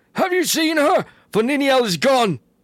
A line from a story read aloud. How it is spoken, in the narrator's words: men cried to him